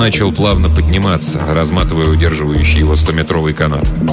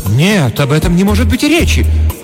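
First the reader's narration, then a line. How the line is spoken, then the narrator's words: Dramatic exclamation. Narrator (Russian): патетически воскликнула хозяйка дома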